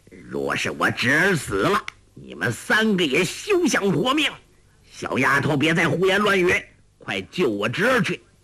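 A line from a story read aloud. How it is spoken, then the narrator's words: Shouting. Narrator (Chinese): 欧阳锋叫道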